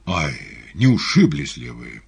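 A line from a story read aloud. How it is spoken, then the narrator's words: Exclamation. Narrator (Russian): Артист воскликнул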